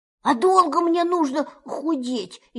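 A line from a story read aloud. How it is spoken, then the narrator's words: Frightened question. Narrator (Russian): испуганно спросил Пух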